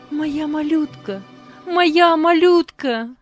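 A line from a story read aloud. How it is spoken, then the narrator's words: Woman screaming. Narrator (Russian): кричала женщина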